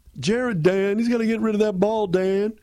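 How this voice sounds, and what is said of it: Imitates another person's voice. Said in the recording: “That's my Lomas Brown for you for the day ... your Lomas impression ... I can't do Lomas Brown every day.”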